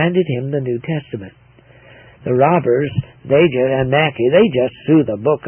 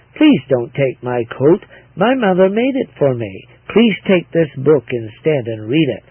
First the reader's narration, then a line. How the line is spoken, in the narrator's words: she looked up calmly and said